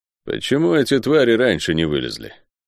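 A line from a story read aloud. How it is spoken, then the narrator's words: Gloomy leopard's question. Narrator (Russian): мрачно спросил Лофер, один из самых опытных леопардов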